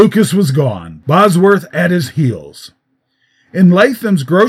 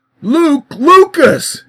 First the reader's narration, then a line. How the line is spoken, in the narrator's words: groaned